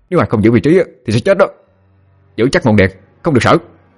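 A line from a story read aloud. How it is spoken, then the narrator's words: Barked. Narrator (Vietnamese): Vương quát lên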